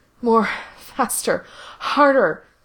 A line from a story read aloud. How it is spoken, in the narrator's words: he begged